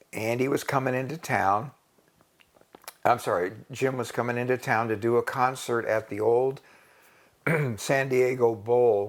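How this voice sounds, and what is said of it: Hoarse voice. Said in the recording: “I'm starting to get a little hoarse here because I'm getting too excited.”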